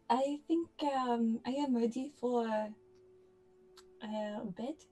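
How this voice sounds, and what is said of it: Put-on French accent. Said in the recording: “I stay in this French accent.”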